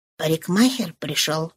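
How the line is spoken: Whisper. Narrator (Russian): шепнула она

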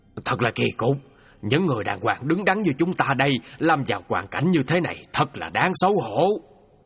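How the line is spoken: Grumbling. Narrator (Vietnamese): Gia chủ trưởng cằn nhằn với người của mình

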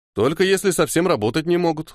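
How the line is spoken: Snorting chuckle. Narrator (Russian): хмыкнул Ниэль

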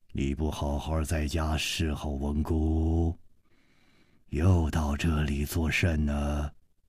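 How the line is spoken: Low, commanding voice. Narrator (Chinese): 这个声音 低沉之中隐隐有微，一听那就知道是惯于发号施令的人

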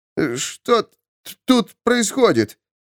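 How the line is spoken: Stammering, strained. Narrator (Russian): Запинаясь, выдавил он из себя

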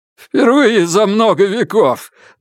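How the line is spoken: Strange crazed voice. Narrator (Russian): добавил другой со странным безумным голосом

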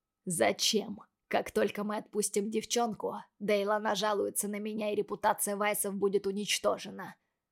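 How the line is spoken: Father's hoarse wheeze. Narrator (Russian): прохрипел папаша Логана

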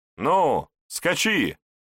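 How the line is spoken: Shout. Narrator (Russian): крикнул Егор кнехту

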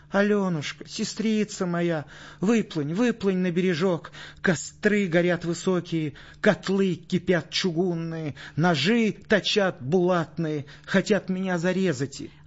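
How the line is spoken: Little goat's plaintive cry. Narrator (Russian): козленочек жалобно закричал

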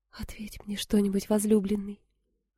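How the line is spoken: Timid plea. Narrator (Russian): робко попросила Суламифь

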